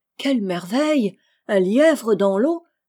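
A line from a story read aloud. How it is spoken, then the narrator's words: Woman exclaiming. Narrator (French): s'écria la femme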